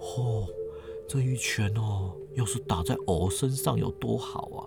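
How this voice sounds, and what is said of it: Quiet, envious voiced character line. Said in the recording (Chinese): “语气羡慕， 小声的说”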